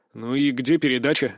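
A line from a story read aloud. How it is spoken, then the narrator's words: Displeased, reluctant grumble. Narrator (Russian): недовольно буркнул я, не горя желанием что-то принимать от бандитов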